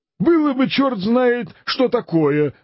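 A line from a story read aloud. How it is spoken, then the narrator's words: Exclaiming. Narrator (Russian): воскликнул Дон Кихот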